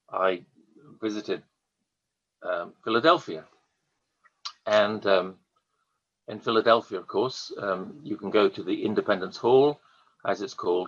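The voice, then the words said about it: Strong British accent. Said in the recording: “strong British accent ... my accent”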